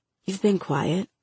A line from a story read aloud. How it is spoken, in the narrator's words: Michael whispered from across the table at the library